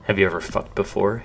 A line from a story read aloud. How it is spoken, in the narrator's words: whispered into her ear through clenched teeth